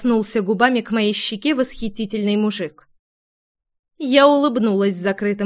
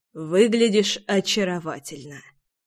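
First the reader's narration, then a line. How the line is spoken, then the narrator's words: Low husky male voice. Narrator (Russian): Низким с хрипотцой голосом выдал мне комплимент мечта всего женского пола от 10 и до 90 лет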